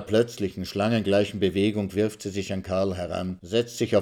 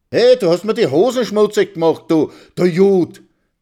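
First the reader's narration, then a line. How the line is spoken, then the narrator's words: Shout. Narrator (German): schreit Karl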